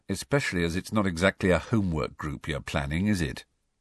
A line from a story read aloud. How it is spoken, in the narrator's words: said Harry dryly